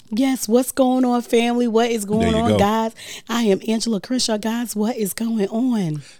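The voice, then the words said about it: Raspy, hoarse voice. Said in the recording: “My voice is real raspy. ... I got really bad allergies. ... And it's running into my ears and my throat. ... I lose my voice.”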